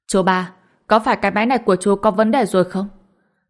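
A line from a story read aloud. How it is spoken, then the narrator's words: Barking shout. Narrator (Vietnamese): Dương Quang quát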